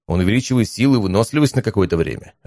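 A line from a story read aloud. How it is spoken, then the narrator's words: Plain answer. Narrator (Russian): ответил я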